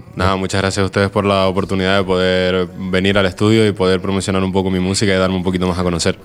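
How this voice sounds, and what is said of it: Radio announcer voice. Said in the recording (Spanish): “Tiene voz de locutor, ya es más fácil, ya no hay que darle tanto volumen”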